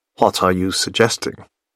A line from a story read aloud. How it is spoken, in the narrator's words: He asks in a low voice